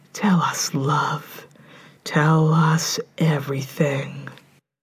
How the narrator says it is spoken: whispering

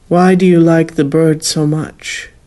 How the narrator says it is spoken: he asked

